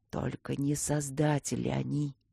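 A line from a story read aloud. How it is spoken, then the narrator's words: Eerie whisper, old man. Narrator (Russian): дед страшным шепотом произнес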